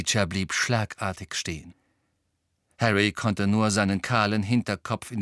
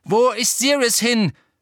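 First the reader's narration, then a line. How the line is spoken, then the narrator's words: Calling after someone. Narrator (German): rief Harry dem Elf nach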